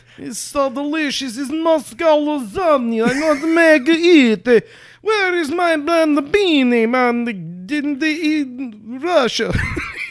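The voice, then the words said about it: Put-on Russian Italian accent. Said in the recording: “I'm trying to do a Russian Italian now. ... want to do a hand gesture with this accent.”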